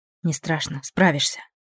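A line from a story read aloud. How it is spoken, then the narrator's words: Soft whisper. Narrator (Russian): тихо шепнула вампирша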